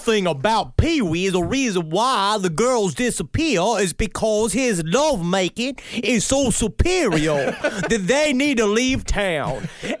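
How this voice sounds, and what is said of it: Put-on accent. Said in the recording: “You saying it's because of my accent? ... ain't nothing wrong with my accent”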